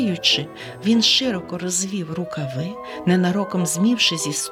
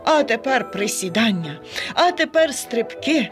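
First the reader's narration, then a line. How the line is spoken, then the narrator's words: Cheerful panting. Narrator (Ukrainian): радісно хекав він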